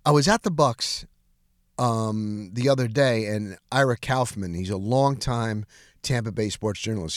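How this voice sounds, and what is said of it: Slightly sick-sounding voice. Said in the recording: “as you can probably hear in my voice today, it's a little bit under the weather”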